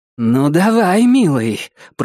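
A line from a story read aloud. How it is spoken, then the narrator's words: Through gritted teeth. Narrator (Russian): процедила она сквозь зубы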